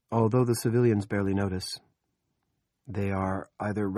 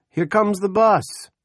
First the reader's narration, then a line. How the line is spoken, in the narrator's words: Special Deputy Toby Manning shouts